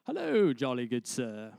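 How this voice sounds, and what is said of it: Put-on British accent. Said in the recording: “British accent ... every story is better with a British accent.”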